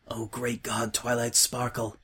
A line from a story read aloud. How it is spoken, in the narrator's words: whispered